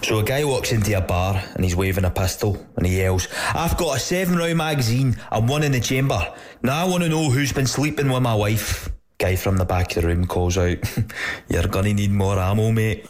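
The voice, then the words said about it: Put-on Scottish accent. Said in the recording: “I'll put on an accent just for dramatic effect ... I'm pretty sure there was a Scottish accent ... I think it was an Irish guy putting on a Scottish accent”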